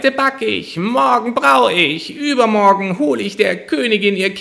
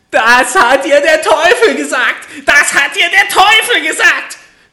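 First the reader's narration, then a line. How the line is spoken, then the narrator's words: Little man screams in rage. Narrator (German): schrie das Männlein und stieß mit dem rechten Fuß vor Zorn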